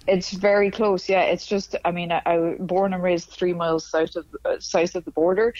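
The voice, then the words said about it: Northern Irish accent. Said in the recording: “I love your accent ... So my accent would be considered pretty northern.”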